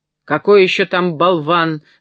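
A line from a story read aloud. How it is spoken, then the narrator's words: Full-voiced shout. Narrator (Russian): закричал он во весь голос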